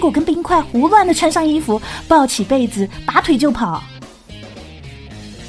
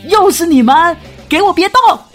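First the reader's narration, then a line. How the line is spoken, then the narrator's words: Shouting while running. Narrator (Chinese): 一溜小跑的杀了过来，嘴里喊着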